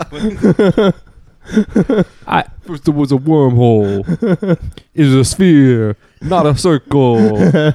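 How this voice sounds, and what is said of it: Imitates a rap group's delivery. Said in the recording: “my Beastie Boys impression”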